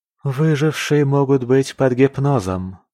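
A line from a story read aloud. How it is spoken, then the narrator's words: Defeated sigh. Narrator (Russian): вздохнула Алина, теряя аргументы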